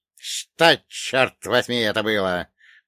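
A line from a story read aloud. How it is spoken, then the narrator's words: Hissed. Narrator (Russian): прошипел Черномор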